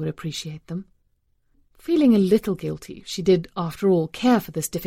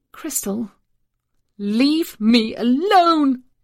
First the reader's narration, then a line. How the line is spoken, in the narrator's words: the child shrieked